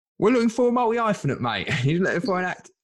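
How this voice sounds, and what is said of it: Put-on Cockney accent. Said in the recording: “I've got to stop using that accent. ... Cockney developers”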